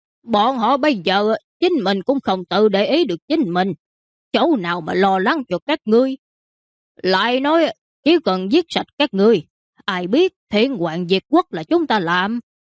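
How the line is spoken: Laughing loudly. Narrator (Vietnamese): Mã tặc kia cười to hai tiếng

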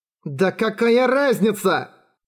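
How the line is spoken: Laughing loudly. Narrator (Russian): Уильям расхохотался

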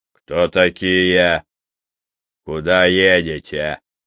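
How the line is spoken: Rough deep bass. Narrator (Russian): грубо пробасил Верзила

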